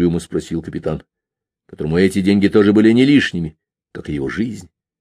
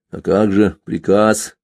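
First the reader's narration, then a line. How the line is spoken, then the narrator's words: Uncertain question. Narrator (Russian): неуверенно спросил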